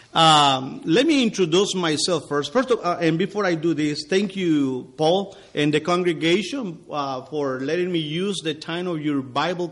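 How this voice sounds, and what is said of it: Non-native English accent. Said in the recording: “do God's job in another language that is not his. As you can tell, my accent is going to give you a little trouble.”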